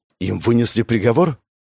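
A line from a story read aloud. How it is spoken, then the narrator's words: Frightened surprise. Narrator (Russian): испуганно удивился Гоша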